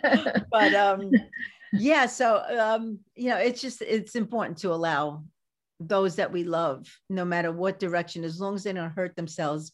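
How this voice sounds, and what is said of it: Brooklyn accent. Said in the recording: “just can't get rid of this brooklyn uh, accent”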